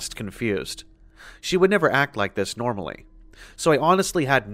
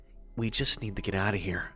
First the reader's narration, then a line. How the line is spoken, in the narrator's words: said in a quiet but panicked voice